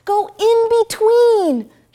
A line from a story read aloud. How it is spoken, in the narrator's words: shouted Peg